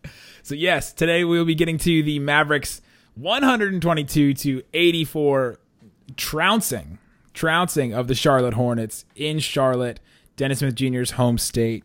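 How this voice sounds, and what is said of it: Sick, slightly off voice. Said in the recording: “If you can't tell by my voice, Isaac was sick ... I think I've gotten it from him ... So my voice is a little out of it tonight”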